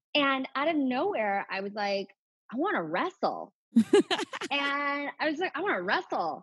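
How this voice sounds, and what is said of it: Usual voice. Nothing is said of it.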